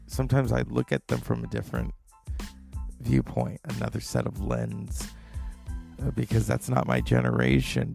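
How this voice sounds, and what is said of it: Tired-sounding voice. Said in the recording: “My voice is tired. I'm tired. I can't hide that.”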